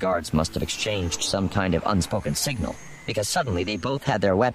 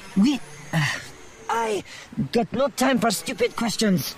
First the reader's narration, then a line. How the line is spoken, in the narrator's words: she snapped, her composure finally slipping